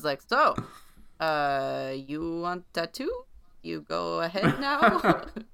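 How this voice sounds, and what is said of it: Attempted Belgian accent. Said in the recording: “I don't know how to do a Belgium accent in English... it wasn't too bad”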